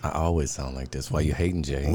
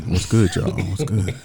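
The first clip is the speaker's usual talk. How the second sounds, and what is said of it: Deliberately deep voice. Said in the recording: “Why you trying to sound all deep, though?”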